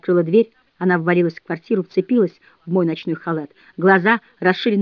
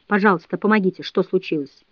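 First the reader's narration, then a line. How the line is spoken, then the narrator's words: Forced calm, cold voice. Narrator (Russian): Я постаралась сказать это спокойно и холодно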